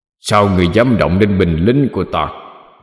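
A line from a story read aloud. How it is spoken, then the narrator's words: Roaring. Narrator (Vietnamese): Xoáy vong gầm lên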